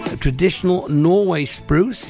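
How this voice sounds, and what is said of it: Put-on Australian accent. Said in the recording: “I have to say that with an Australian accent.”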